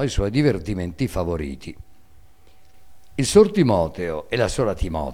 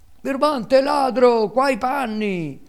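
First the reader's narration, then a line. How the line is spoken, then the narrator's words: Two distressed youths yelling. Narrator (Italian): urlavano i due infelici garzoni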